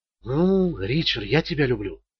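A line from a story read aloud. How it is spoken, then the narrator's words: Several voices whispering closely. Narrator (Russian): шептали они ему в ухо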